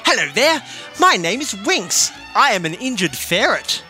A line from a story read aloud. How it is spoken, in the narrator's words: Winx said gaily